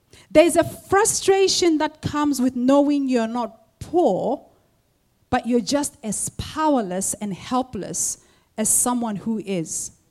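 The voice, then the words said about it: Noticeable accent. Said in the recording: “in case you don't understand my accent”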